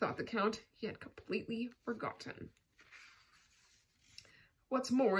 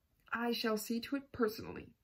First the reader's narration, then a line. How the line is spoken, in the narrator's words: said the count